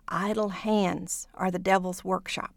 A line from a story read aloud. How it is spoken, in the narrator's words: got into my other ear and whispered